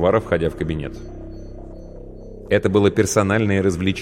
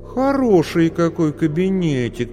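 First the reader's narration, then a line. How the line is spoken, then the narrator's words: Drawling. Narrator (Russian): протянула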